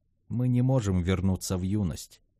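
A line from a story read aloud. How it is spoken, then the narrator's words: Soft remark. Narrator (Russian): мягко заметил Асторы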